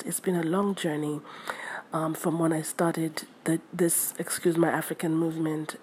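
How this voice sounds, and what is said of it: Tired, slightly stuttering voice. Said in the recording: “Forgive me if I'm stuttering or if my voice is kind of different. I'm very tired”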